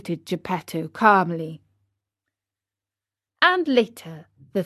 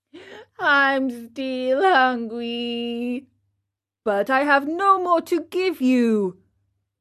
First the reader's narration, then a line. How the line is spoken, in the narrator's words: he yawned deeply and wailed